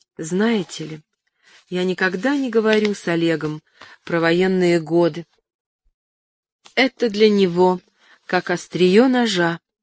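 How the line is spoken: Very gentle. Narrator (Russian): Ася очень мягко сказала мне

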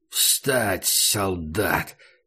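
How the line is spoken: Hoarse self-command. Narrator (Russian): хрипло приказал он себе

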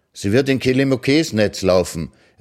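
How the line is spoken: Delighted call. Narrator (German): rief sie erfreut Kidaya zu

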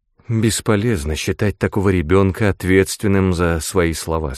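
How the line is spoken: Plain. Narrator (Russian): сказала она

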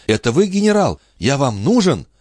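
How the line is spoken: Young man's waking exclamation. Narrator (Russian): Юноша проснулся и воскликнул

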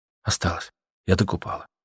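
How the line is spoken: Whispered reply. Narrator (Russian): шепотом ответила Аня

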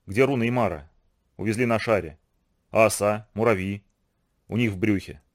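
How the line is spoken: Dry. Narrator (Russian): сухо сказал Вайк

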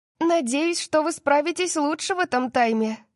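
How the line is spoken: Shout. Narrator (Russian): крикнула Гвен нам вслед

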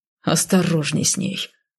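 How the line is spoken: Menacing growl. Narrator (Russian): грозно зарычал Гер

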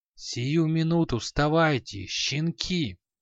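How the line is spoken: Angry hiss. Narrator (Russian): Зло прошипел чей-то голос

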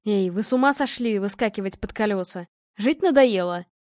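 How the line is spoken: Displeased. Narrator (Russian): Недовольным голосом проговорил он

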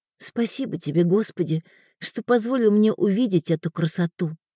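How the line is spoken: Reverent whisper. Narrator (Russian): шептала Элеонора

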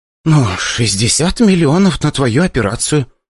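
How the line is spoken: Awkward sigh. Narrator (Russian): вздохнула Ксения, неловко улыбаясь

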